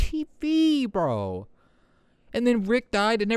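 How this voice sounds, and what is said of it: Usual voice. Nothing is said of it.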